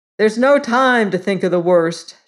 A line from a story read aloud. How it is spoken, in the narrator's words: shouted the clever one at the top of his voice